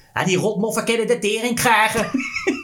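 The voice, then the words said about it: Exaggerated Rotterdam working-class accent. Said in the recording (Dutch): “Heel veel Nederlandse acteurs die hebben moeite met accenten van, van met volksaccenten. ... die figuranten in deze film die dan Rotterdamse accent”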